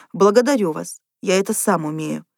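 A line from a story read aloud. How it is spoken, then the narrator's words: Dry reply. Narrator (Russian): сухо ответил доктор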